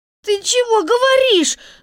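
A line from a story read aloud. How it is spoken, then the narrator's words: Shouting. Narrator (Russian): закричала Несмеяна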